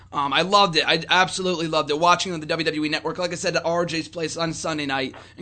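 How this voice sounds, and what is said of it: Hoarse, strained voice. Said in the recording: “losing my voice”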